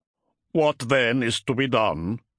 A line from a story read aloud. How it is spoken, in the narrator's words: the Wolfguard asked gruffly